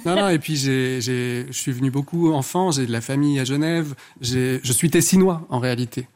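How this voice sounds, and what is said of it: Strong Ticino Italian-Swiss accent in French. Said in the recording (French): “d'où l'accent ... C'est cet accent à couper au couteau ... Du lac de Lugano”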